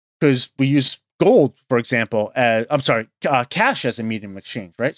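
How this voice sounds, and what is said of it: New York accent. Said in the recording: “I'm based in New York, if you can't tell by the accent”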